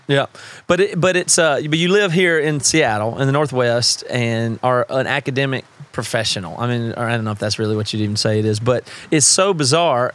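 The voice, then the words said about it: Southern US accent. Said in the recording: “you don't even sound like you have a certain accent. I do ... what Southerners do I hang out with other than you”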